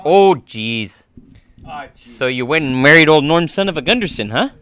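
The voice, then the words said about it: Impression of a Fargo character's voice. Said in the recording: “Who's your best impression? ... Fargo represent?”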